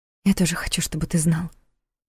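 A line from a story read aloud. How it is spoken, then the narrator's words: Brief whisper. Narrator (Russian): прошептала она на мгновение, прервав поцелуй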